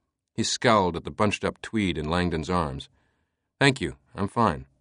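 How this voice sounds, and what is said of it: Usual voice. Nothing is said of it.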